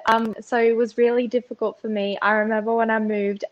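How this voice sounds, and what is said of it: Mixed accent, Aussie twang, somewhat posh. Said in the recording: “accent is a bit strange because there is a bit of an Aussie twang, but at the same time, some people say I sound a bit posh ... It's a bit of a mishmash.”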